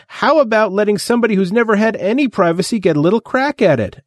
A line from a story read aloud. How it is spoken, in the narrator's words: Eddie demanded hotly